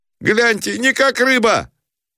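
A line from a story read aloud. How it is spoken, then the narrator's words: Shout. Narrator (Russian): Кто это закричал у Шатиков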